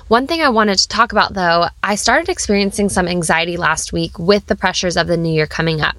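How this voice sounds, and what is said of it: Slightly sick-sounding voice. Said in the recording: “as you can probably hear in my voice, yes, I'm still coming into the new year feeling a little bit sick”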